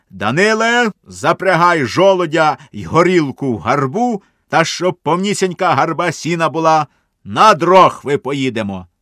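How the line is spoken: Drunken shout. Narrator (Ukrainian): як нап'ються, то й крикнуть

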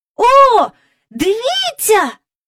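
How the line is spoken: Astonished shout. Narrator (Ukrainian): вражено закричав Майкл

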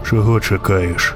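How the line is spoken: Quiet rider's question. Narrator (Ukrainian): запитав тихо вершник

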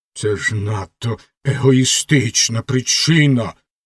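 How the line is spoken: Angry remark. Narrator (Ukrainian): сердито зауважила ракета

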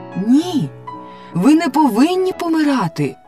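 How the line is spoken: Exclaimed. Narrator (Ukrainian): вигукнула Софі

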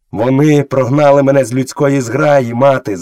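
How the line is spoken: Shouting. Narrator (Ukrainian): закричав Мауглі

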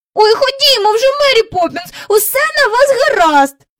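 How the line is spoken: Impatient cry. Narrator (Ukrainian): нетерпляче скрикнув Майкл

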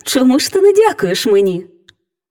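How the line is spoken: Cheerful, smiling fairy. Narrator (Ukrainian): Весело всміхаючись, мовила фея

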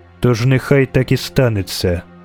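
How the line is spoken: Short, cold. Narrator (Ukrainian): сказала Ейтне, коротко і холодно

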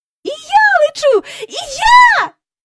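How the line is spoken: Shrieking. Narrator (Ukrainian): заверещала Джейн

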